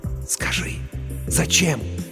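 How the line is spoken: Trembling excited whisper. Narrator (Russian): Дрожа от возбуждения, рулевой прошептал ей

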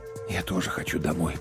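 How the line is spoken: Whisper. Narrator (Russian): прошептал я

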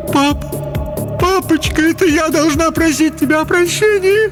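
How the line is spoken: Sobbing. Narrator (Russian): зарыдала Хелен

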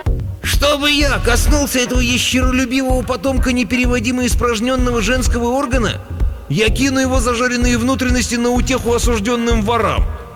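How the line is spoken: Shrieking. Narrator (Russian): тучный принц в паланкине завизжал

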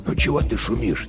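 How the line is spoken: Quiet question. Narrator (Russian): тихо спрашивал он у пса

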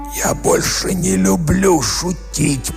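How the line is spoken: Hoarse wheeze. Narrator (Russian): прохрипел он

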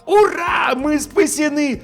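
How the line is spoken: Yelling. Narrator (Russian): завопил я

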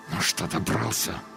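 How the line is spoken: Angry hiss through teeth. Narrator (Russian): зло прошипел сквозь зубы человек

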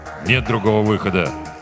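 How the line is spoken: Grim. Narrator (Russian): сказал капитан мрачно

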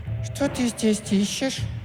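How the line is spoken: Thin lisping voice. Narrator (Russian): прошепелявила она тоненьким голоском

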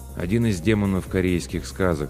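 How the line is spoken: Calm. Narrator (Russian): спокойно ответил Ким

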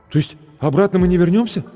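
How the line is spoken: Frightened question. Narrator (Russian): испуганно спросил зеленоглазый блондин в джинсовой куртке

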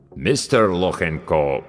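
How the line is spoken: Deep bass voice. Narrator (Russian): пробасил

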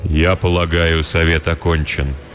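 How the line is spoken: Remarkably even voice. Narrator (Russian): удивительно ровным голосом произнес старший кудесник

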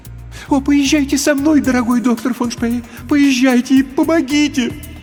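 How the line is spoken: Pleading. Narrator (Russian): взмолилась женщина

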